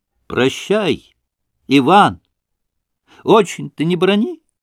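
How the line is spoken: Father's final shout. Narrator (Russian): крикнул в последний раз отец

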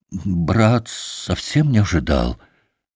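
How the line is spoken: Mumbled, cut short. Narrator (Russian): пробормотал было Алеша

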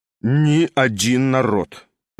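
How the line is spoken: Reciting. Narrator (Russian): начал он, как бы читая по строкам

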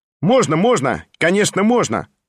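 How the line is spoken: Loud cheerful shout. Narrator (Russian): громко и весело крикнул сам Петр Степанович

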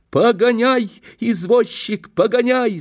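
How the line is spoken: Shouted. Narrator (Russian): закричал я на Ваньку

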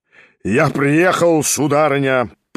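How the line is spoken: Booming, trumpet-like. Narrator (Russian): прогремел было он, как в трубу

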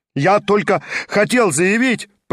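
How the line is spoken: Ashamed, fearful shout. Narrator (Russian): прокричал он весь горя от стыда и боясь осмотреться вокруг

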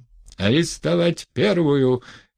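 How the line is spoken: Shouting. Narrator (Russian): крикнул тот

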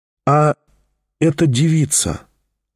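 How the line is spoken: Very timid. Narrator (Russian): очень робко начал опять Тихон

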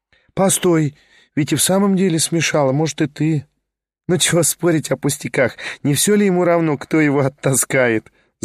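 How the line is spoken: Laughing woman. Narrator (Russian): засмеялась она

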